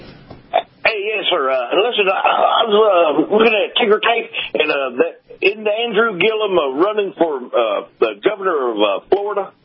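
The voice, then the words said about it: Texas accent. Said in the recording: “I love that Texas accent.”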